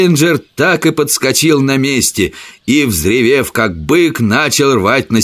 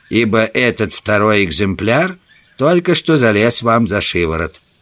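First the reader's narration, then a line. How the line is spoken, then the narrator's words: Gloomy. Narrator (Russian): мрачно проговорил Саммерли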